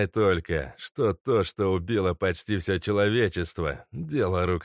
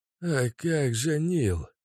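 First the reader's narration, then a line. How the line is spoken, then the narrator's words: Old man wheezing. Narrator (Russian): просипел старик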